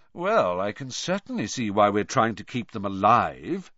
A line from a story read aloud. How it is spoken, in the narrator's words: said Malfoy sarcastically